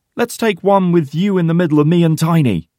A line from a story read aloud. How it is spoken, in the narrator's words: shouts Porter with a big smile